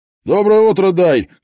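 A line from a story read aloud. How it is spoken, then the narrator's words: Loader's shout. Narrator (Russian): крикнул грузчик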